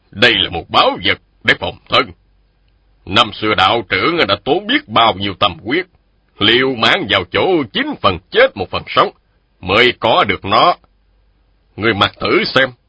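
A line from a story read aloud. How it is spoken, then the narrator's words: Stern voice. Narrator (Vietnamese): Một nhân thanh nghiêm giọng nói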